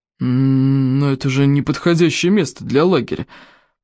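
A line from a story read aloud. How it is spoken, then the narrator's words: Grumbling, abruptly cut off. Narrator (Russian): проворчал Стоик, но вдруг умолк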